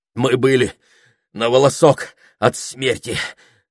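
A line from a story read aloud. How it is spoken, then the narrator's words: Strained, gasping for air. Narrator (Russian): выдавил из себя Саймон, хватая ртом воздух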